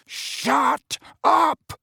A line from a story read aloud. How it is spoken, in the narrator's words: roared Mrs